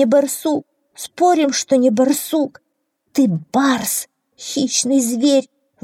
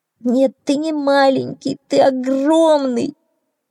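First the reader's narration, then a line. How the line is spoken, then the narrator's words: Gloomy little donkey. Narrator (Russian): мрачно сказал маленький ослик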